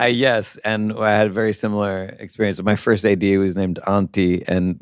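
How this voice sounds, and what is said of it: Usual voice. Nothing is said of it.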